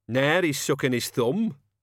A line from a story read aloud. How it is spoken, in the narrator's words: Cat's Eye jeered